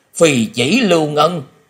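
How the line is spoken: Shocked startled exclamation. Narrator (Vietnamese): Lão ma không khỏi kinh hoàng bật thốt lên

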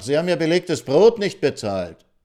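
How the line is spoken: Waiter calling after. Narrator (German): rief ihm der Kellner nach

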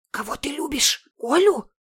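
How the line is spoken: Hissing. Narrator (Russian): зашипела Лена на лысого

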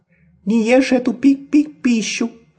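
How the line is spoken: Squeaky. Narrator (Russian): пропищала она

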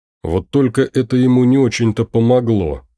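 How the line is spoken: Snorted. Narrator (Russian): хмыкнул Ирвин

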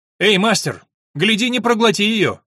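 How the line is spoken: Shouting passing worker. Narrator (Russian): крикнул проходивший мимо работник

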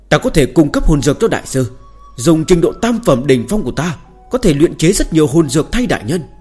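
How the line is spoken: Loud shout. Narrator (Vietnamese): Chu Nhất Tinh lập tức hét lớn

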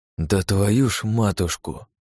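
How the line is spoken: Exhaled exclamation. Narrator (Russian): выдохнул я

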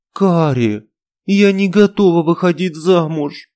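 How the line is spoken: Pleading. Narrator (Russian): взмолилась я

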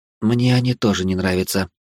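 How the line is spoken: Muttered. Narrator (Russian): пробормотала матриарх суккубов

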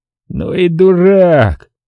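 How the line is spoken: Strange unfamiliar voice. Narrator (Russian): каким-то чужим голосом произнес Червоненко

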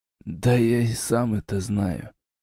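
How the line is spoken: Sigh. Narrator (Russian): вздохнул темный

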